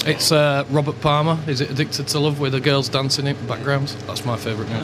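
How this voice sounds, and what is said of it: Yorkshire accent. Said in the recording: “where's that accent from? ... Yorkshire. ... Another Yorkshireman.”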